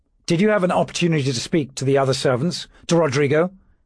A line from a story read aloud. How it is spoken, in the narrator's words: he said urgently